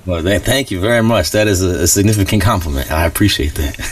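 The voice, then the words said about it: Great radio voice. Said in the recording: “you've got a great radio voice, too”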